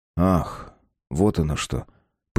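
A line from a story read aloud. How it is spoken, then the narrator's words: Knowing drawl. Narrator (Russian): понимающе протянул Марк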